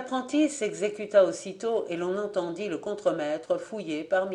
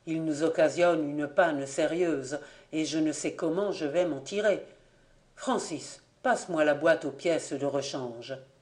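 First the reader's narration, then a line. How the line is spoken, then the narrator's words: Murmur. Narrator (French): murmura Grondard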